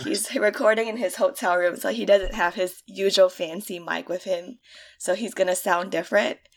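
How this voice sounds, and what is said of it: Sick, congested voice. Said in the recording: “I have a cold / flu / I don't know, bronchitis, maybe? ... that's why I sound different”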